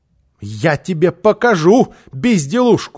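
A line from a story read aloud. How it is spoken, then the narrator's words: Shout. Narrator (Russian): закричала она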